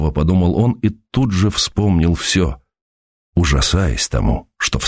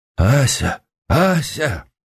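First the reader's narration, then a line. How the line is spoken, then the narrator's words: Calling in altered voice. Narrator (Russian): позвал он чужим голосом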